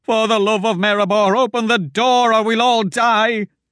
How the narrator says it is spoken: Wilmer cried

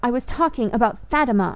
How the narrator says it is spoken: I cried in a rage

